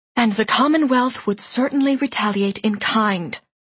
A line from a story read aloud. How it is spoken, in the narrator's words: he added sharply